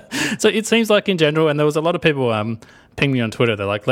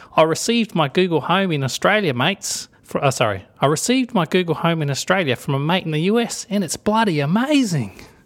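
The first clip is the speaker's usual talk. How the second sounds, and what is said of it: Put-on Australian accent. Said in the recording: “I'm going to do my Australian accent”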